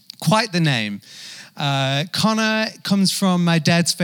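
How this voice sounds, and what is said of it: Usual voice. Nothing is said of it.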